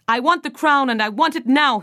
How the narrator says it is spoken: he yelled

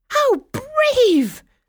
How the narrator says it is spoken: the fairies exclaimed, sounding even more delighted

